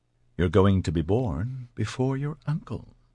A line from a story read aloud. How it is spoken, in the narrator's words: she said softly